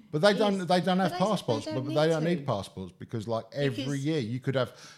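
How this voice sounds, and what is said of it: Usual voice. Nothing is said of it.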